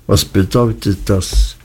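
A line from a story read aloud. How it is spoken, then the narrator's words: Flat, toneless voice. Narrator (German): Er sprach mit so tonloser Stimme, dass es mich fast erschreckte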